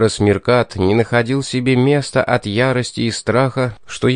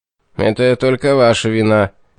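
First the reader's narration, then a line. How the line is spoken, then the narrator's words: Grumpy grumble. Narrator (Russian): сварливо пробурчал Меркат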